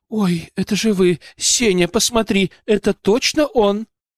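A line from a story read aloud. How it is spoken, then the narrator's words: Woman's exclamation. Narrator (Russian): женщина вдруг воскликнула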